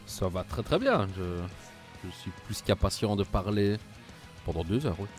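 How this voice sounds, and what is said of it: Belgian French accent, Liège. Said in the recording (French): “Au vu de ton accent, euh, tu es belge comme moi ... C'est de Liège”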